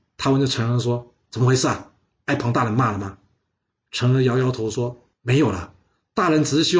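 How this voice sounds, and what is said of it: Usual voice. Nothing is said of it.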